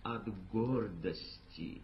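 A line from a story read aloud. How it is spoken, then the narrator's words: Plain. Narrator (Russian): ответил Рахим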